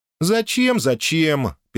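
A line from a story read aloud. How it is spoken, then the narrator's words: Angry mocking mimicry. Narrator (Russian): передразнила она сердито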